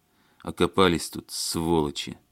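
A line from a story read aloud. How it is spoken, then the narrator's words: Through gritted teeth. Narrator (Russian): Сквозь зубы процедил Барышев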